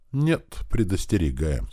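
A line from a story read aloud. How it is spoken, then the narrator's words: Calm. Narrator (Russian): спокойно ответил я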